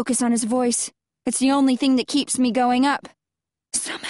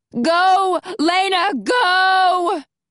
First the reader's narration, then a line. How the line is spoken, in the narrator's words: Alex must be behind me ... shouting